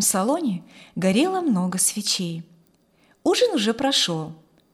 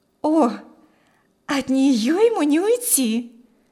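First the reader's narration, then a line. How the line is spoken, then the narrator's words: Exclamation. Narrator (Russian): воскликнула девушка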